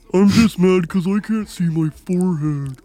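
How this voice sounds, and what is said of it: Low, breathy, nasal Patrick Star impression. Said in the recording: “a Patrick impression ... low and breathy ... nasally kind of”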